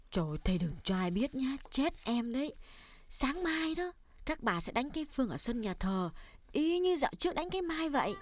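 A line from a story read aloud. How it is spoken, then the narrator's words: Lowered voice, quiet. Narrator (Vietnamese): cô hạ giọng nói nhỏ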